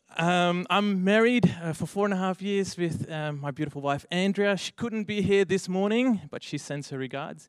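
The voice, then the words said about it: Dutch accent in English. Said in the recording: “if you hear my accent, I'm actually from overseas ... I'm actually from the Netherlands ... So I speak Dunglish”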